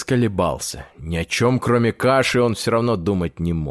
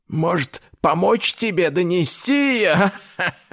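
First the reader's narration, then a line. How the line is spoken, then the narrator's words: Old man laughing. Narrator (Russian): рассмеялся дед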